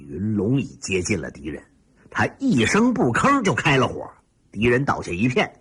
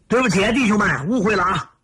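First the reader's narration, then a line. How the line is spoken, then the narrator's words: Soldiers' apologetic shout. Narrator (Chinese): 74军士兵们 抱歉地喊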